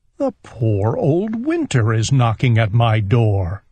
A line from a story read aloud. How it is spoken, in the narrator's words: said Owl